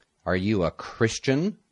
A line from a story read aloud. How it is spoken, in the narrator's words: the emperor asked coldly